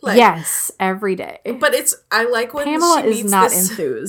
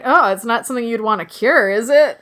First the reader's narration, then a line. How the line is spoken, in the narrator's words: kind of chuckles about that